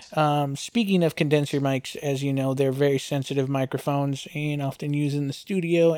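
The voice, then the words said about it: Slightly mumbled, marble-mouthed speech. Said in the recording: “I might sound a little marble mouth right now, but I'll do my best to enunciate ... my voice is a little um num num kind of”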